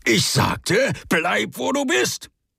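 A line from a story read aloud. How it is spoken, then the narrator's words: Spitting bark. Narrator (German): Speichel flog, als er bellte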